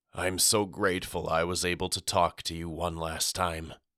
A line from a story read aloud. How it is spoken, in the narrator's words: whispered hoarsely